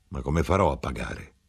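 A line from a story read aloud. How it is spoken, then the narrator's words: Muttering. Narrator (Italian): borbottò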